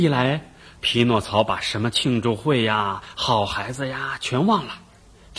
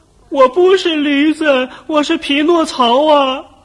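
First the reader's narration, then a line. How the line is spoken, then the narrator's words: Donkey's braying voice. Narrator (Chinese): 发出的声音呢，是驴叫声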